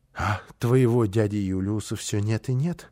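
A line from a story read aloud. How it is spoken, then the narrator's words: Sighing. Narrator (Russian): вздохнула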